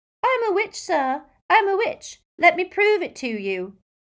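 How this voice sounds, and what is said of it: Squeaky mocking imitated voice. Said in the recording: “he said in a squeaky impersonation.”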